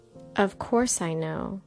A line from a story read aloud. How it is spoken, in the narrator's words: Elisha answered